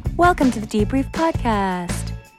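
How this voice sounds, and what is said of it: Soft, gentle, ASMR-like voice. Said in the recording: “This is how we'll be talking for the rest of our lives. ... Just really soft and gentle, easing you into the week. ... Do I sound like I'm doing ASMR?”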